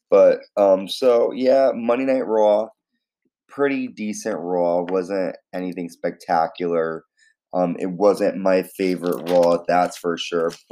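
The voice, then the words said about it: Raspy voice. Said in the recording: “My voice is pretty raspy for some strange reason ... It sounds a little strange to me”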